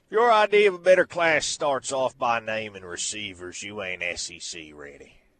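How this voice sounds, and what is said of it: Heavy put-on Southern accent. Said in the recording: “he wants it in a heavy Southern accent”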